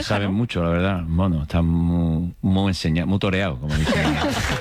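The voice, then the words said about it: Andalusian Cádiz Spanish accent. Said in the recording (Spanish): “te hablan poco de Cádiz y te sale el acento de repente”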